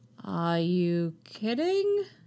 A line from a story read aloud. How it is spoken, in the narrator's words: he asks slowly